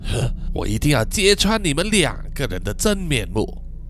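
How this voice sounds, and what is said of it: Quiet, hushed muttering to herself. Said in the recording (Chinese): “小声地跟自己说”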